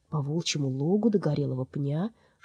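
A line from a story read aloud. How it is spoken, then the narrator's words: Mumbling. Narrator (Russian): Митя бормоча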